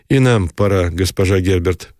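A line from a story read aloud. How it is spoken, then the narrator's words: Plain. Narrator (Russian): сказал Никитин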